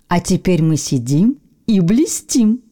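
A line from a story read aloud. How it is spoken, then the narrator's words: Plain. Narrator (Russian): сказал бутылочный осколок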